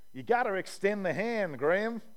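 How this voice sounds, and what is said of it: Poor attempt at American accent. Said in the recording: “That's a terrible American accent. Oh, I try so hard.”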